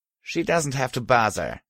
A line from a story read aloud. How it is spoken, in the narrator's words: said with a little snort